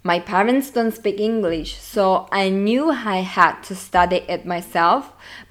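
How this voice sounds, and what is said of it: Italian accent. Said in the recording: “As you can probably say from my accent, I'm Italian”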